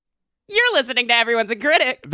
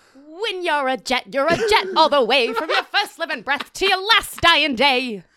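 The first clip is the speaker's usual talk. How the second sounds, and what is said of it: Good Scarlett Johansson impression. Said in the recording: “That's a pretty good Scarlett Johansson impression. You got it down.”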